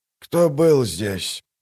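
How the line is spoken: Hoarse. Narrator (Russian): прохрипел он

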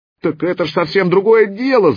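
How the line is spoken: Indignant yelling. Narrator (Russian): заорал кипяток, возмущенный тем, что ему никто не верит

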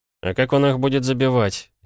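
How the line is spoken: Ironic snort. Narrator (Russian): иронично хмыкнул Полозов

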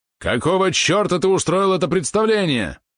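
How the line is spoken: Sudden yell. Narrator (Russian): внезапно заорал

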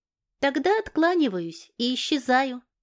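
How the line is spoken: Calm. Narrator (Russian): спокойно произнес

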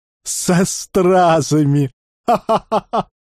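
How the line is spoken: Hearty relieved laughter. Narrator (Russian): Мужчины смеялись от души, избавляясь от напряжения, скопившегося за последние дни

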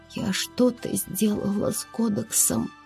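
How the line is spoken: Hoarse girl asking. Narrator (Russian): Севшим голосом девушка спросила

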